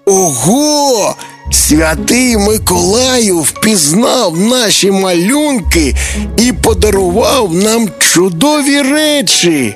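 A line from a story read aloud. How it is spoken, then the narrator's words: Joyful. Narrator (Ukrainian): радісно сказав Тимко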